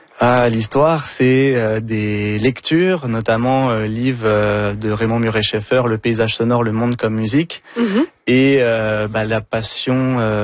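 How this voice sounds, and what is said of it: French accent. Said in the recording (French): “on le devine avec votre accent, vous êtes d'origine française”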